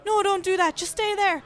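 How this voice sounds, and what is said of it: Good put-on Irish accent. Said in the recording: “completely pissed Irish ... That was a really good accent.”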